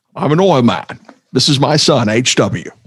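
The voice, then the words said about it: Daniel Plainview impression. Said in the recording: “Daniel Plainview ... There Will Be Blood”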